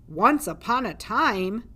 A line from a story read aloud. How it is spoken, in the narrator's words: boomed a voice from the darkness